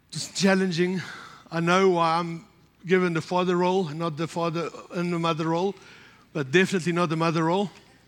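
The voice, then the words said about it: Strained, partly lost voice. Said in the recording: “You can hear my voice is a bit funny. Monday it closed up and it's gone.”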